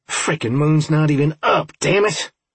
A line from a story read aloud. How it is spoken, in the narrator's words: I snarled